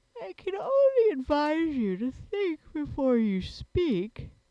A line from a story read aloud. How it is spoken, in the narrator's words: said the Sand Fairy sleepily